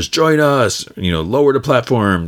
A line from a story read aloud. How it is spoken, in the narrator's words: They're yelling